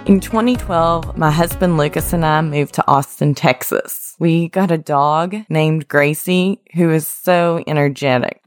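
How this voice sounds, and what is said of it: West Virginia accent. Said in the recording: “I proudly grew up in small town West Virginia, so if you hear an accent, that's actually where it comes from.”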